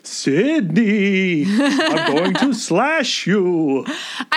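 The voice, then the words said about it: Traditional Disney-style ghost voice. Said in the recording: “if he did like a traditional like Disney ghost voice”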